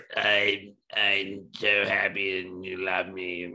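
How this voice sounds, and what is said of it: Impression of Val Kilmer's damaged voice. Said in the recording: “Val Kilmer ... he had some form of throat cancer ... Perfect impersonation.”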